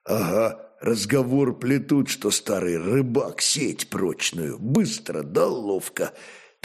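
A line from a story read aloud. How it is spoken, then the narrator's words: Whispered reply. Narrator (Russian): так же шепотом ответил ему богатырь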